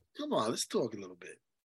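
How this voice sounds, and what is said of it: Sweet, coaxing voice. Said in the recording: “Put on my sweet voice.”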